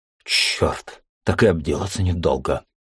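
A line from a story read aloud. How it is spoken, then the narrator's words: Startled exhale. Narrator (Russian): выдохнул от неожиданности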